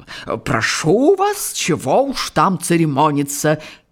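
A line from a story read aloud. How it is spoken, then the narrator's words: Offended, chiming in. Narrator (Russian): обиженно подхватил доктор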